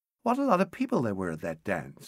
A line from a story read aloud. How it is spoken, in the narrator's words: she said brightly